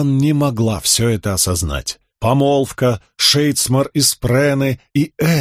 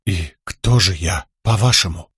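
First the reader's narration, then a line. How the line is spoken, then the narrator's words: Whisper. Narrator (Russian): прошептала Шалан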